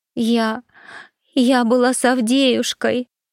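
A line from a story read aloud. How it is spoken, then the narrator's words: Declaring after heavy crying. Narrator (Russian): хорошенько проревевшись, заявила она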